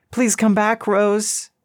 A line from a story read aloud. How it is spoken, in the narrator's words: it cried out, its voice echoing through the hills and hollers